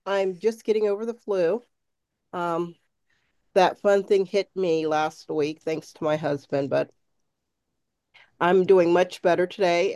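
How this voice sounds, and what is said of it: Slightly nasal voice. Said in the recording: “I sound a little nasally”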